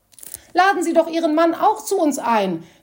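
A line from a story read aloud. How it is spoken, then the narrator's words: Calling out to her. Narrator (German): rief Frau Berowski ihr zu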